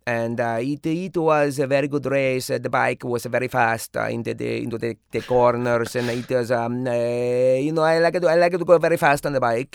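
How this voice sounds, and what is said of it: Valentino Rossi impression, not gruff. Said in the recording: “I would watch all the post-game interviews with Valentino Rossi... I can try to emulate that, but that's not a very gruff sounding”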